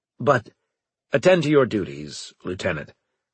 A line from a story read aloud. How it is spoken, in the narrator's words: Braga said sharply